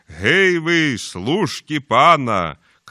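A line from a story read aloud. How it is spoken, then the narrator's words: Shouted. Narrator (Belarusian): крыкне так Тамаш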